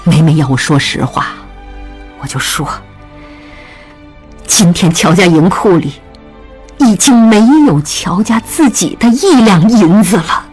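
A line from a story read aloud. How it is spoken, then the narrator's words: Resolute, frank. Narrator (Chinese): 曹氏一咬牙，慨然直言道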